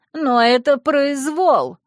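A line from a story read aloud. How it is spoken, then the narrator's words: Angry shout. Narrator (Russian): злобно закричала Джана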